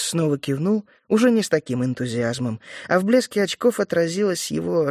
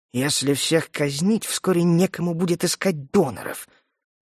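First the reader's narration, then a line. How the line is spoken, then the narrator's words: Irritated grumble. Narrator (Russian): раздраженно буркнул император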